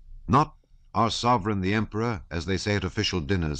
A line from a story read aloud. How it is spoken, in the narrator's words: said he